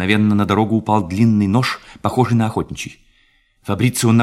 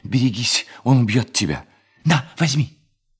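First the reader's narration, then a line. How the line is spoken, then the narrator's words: Half-voiced shout. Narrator (Russian): Мариетта вполголоса крикнула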